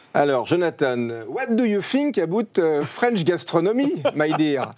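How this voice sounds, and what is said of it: English with put-on French accent. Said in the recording (French): “with uh, the French accent? ... En plus, avec l'accent.”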